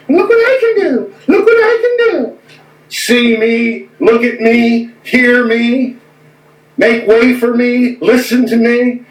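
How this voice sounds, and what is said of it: Imitation of a TV personality. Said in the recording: “my little imitation of that crazy guy that was on TV”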